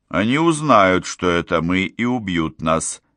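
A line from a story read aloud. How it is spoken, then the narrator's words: Monotone, hopeless voice. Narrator (Russian): произнесла монотонным, безнадежным голосом орхидея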